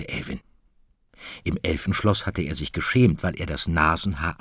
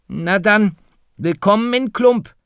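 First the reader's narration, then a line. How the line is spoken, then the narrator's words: Calling out. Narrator (German): rief Firlefanz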